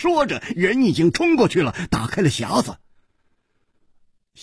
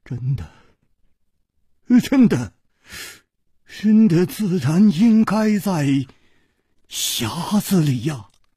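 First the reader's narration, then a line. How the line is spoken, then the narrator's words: Trembling voice. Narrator (Chinese): 公子金半花的面色 又变了，他颤声说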